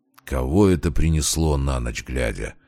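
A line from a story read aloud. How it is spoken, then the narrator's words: Grumbled. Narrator (Russian): проворчал он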